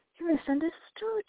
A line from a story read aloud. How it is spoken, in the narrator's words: she said gently